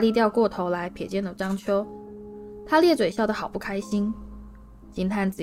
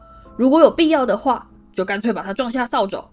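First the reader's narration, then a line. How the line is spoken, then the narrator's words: Loud roar. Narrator (Chinese): 木头忍不住大声吼道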